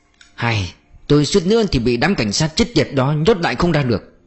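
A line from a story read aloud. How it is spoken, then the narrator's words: Angry sigh. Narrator (Vietnamese): Dung Uy thở dài giận dữ nói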